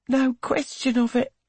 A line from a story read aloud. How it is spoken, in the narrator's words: she sighs